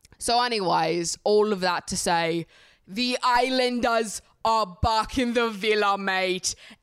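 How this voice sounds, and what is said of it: Put-on British accent. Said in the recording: “No criticisms allowed when talking about the British accents. All right. I know that my accent is fantastic... I'm working on it night and day over here.”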